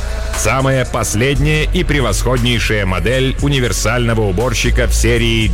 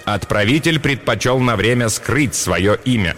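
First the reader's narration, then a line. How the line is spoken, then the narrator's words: Plain. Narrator (Russian): ответил Ром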